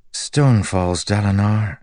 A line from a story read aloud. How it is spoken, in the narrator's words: she said, sighing